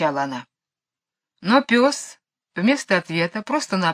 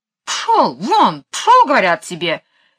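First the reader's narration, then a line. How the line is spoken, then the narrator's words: Angry. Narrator (Russian): сердито ... мисс Ларк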